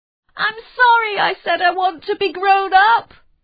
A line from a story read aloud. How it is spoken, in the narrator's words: he cried at the top of his voice